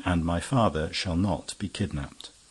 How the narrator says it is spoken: he added calmly

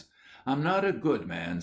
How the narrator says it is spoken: said he

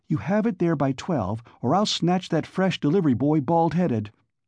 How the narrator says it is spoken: Juanita Haydock cheerfully jabbered

